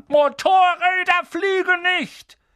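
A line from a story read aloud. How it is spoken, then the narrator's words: Angry shouting. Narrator (German): schrie Harry an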